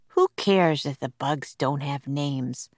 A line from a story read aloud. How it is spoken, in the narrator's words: He said softly